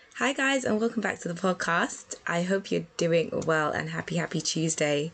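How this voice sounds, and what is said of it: Hoarse, strained voice, sounds ill. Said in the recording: “you can probably tell by my voice, I'm somewhat losing my voice ... I feel like I'm still sounding really, really ill ... made my voice not that great”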